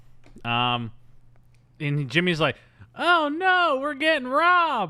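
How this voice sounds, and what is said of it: Impression of Jimmy O'Neill. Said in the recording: “That's actually a good impression of Jimmy O'Neill. ... That's how he sounds in this movie.”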